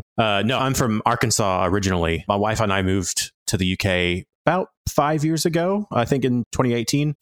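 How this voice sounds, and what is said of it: Southern American twang, Arkansas. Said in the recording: “You don't sound like you're from England. ... I'm not very British ... I don't have a British accent. I have this weird Southern twang.”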